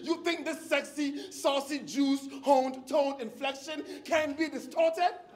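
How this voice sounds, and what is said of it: West African accent. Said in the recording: “my West African accent”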